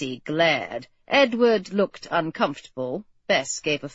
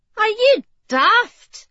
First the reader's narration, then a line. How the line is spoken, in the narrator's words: cried Gracie